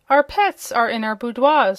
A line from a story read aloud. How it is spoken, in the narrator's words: said Indigo harshly